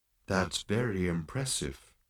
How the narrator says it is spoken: murmured Marvin

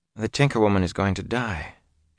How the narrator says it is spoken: she said softly

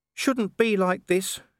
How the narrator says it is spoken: whined

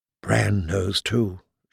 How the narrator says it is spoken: she whispered

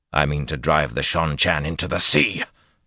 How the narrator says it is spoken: Rand snapped

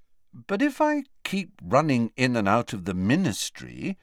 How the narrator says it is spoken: said Harry, still endeavouring to keep his voice friendly

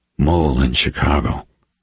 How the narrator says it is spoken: Reacher breathed

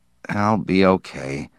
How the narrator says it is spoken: Sipling muttered, sweating

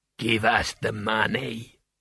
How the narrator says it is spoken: rasped

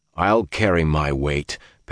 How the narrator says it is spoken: Perrin growled

